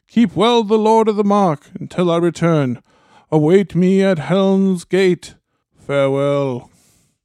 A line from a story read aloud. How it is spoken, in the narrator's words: he cried